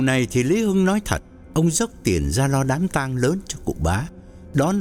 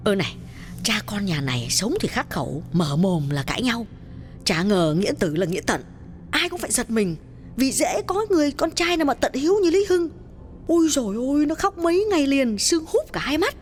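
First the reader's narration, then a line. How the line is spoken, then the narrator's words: Women whispering together. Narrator (Vietnamese): Các bà thì thầm bảo nhau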